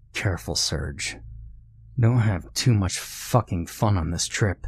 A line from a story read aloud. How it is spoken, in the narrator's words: whispered in a harsh voice